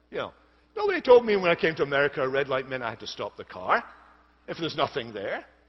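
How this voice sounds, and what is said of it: Foreign accent. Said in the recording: “my foreign accent”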